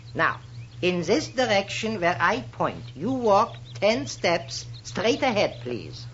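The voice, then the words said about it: Comic Viennese accent. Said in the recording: “Looks like all the comic Viennese professors you ever heard of. ... the accent.”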